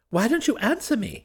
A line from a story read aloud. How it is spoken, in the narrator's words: he exclaimed